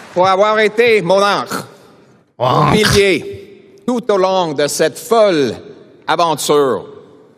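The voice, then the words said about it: Poor non-native French accent. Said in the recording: “His accent's really not good.”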